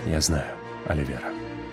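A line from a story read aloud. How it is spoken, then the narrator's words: Quiet. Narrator (Russian): тихо произнес он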